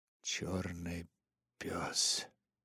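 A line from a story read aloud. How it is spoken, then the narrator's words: Muttering. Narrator (Russian): пробормотал он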